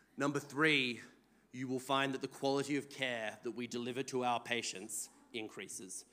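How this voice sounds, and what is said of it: Non-Australian accent. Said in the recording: “I apologise for everyone's eardrums. Thankfully, it's a mostly Australian audience, so I don't have to apologise for my accent.”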